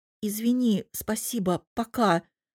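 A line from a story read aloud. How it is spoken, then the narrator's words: Mumbling while running away. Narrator (Russian): бормочу, убегая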